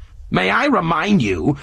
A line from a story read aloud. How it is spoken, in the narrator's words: went on in a shrill voice